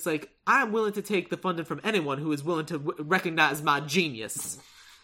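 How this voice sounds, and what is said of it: Exaggerated Southern American accent. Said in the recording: “I'm going full Daniel Craig, aren't I? ... his terrible Southern ... accent.”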